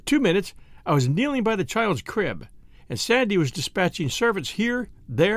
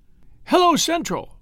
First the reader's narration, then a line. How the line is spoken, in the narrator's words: she gasped, almost inaudibly